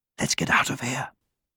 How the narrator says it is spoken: whispered the mouse

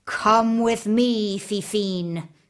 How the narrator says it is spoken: he snarled

